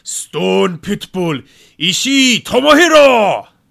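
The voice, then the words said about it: Japanese announcer voice. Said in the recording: “do the Japanese announcer voice”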